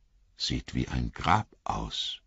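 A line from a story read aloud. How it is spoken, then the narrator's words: Murmur. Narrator (German): murmelte Frodo mit einer seltsamen Vorahnung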